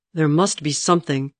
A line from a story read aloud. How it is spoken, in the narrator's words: he snarled at her